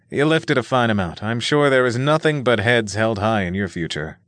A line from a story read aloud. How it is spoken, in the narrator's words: Nick replied with a chuckle